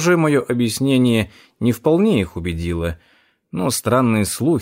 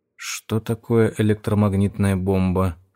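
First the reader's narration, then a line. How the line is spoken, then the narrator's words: Whispered question. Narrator (Russian): шепотом спросил Найтингейл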